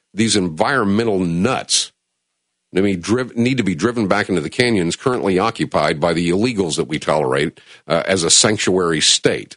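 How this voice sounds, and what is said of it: Upset, agitated ranting tone. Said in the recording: “do I sound a little upset? Yeah, I probably am. I probably am a little upset.”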